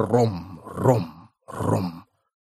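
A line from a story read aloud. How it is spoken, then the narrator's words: Whispering mollusks. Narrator (Russian): шепот моллюсков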